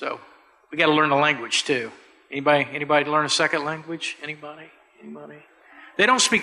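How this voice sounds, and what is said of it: Usual voice. Nothing is said of it.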